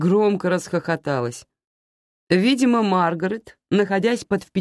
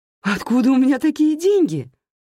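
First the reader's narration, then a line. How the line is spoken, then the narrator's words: Exclaimed. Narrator (Russian): воскликнула я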